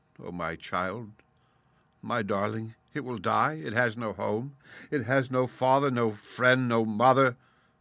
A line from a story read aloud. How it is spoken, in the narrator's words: she cried out